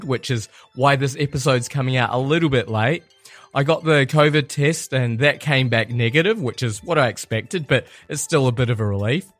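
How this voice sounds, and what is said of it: Croaky voice from a cold. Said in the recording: “my voice is a little bit croaky, but I have a bit of a cold”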